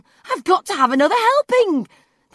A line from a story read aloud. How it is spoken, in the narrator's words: yelping